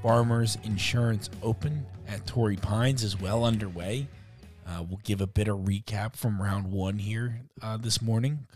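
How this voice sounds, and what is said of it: Voice sounds unwell, not great. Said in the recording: “Feeling a little bit better this morning. You'll probably hear it in my voice quite a bit. And it still doesn't sound great”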